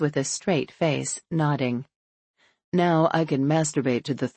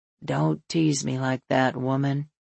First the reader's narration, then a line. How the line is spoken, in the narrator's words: he says, his voice gravelly